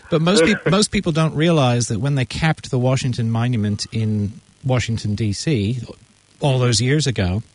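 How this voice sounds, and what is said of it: American accent. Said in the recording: “You can tell from my accent I'm American, right? I'm a Yank.”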